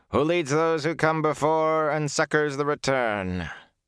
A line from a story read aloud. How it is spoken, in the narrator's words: the yellow-haired man intoned